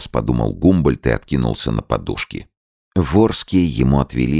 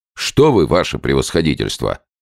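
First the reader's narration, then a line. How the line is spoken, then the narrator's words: Irritated reply. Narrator (Russian): раздраженно ответил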